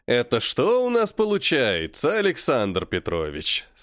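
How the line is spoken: Deceptively friendly. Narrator (Russian): сказал он обманчиво дружелюбным тоном

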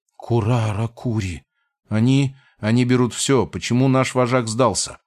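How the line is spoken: Whisper. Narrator (Russian): прошептал

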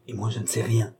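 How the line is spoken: Whispered. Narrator (French): dit tout bas Mme du Barry

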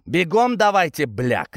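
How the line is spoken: Shouting. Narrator (Russian): крикнул я

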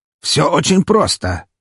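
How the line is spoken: Snorting remark. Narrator (Russian): хмыкнул Павел

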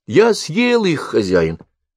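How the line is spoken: Calm. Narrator (Russian): спокойно ответил ученик

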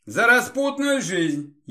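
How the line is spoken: Snide remark. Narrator (Russian): ехидно заметил Эдуард

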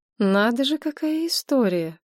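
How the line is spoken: Drawling. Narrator (Russian): протянула Надежда Николаевна

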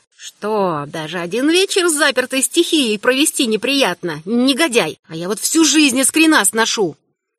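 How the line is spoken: Hissing. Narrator (Russian): тетин супруг тоже шипел

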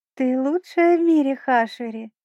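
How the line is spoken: Sweet angelic singsong. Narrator (Russian): ангельским голоском пропела Стервель

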